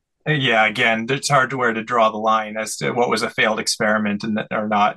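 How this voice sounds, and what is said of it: Slight Canadian accent. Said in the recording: “I'm picking up a bit of a Canadian accent.”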